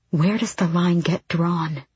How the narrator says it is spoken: Asterin said quietly

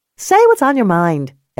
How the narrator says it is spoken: Ellie snapped

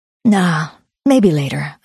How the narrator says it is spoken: said, keeping my voice light to hide my desperation

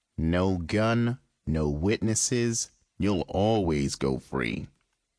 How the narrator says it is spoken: he said in a low voice

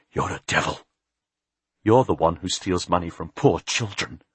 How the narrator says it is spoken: The priest's dirty face went pale, and he whispered

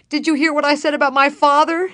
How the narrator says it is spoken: she asked hysterically

